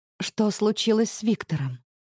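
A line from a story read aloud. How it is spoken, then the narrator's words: Quiet, wary question. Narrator (Russian): спрашивает она тихо, но настороженно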